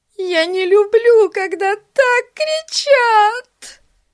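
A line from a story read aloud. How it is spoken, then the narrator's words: Sobbing. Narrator (Russian): рыдала Бетси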